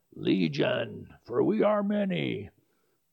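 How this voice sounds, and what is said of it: Imitated demon character voice. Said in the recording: “my best imitation of Legion”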